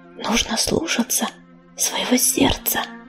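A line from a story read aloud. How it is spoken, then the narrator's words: Mouthed whisper. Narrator (Russian): одними губами прошептала она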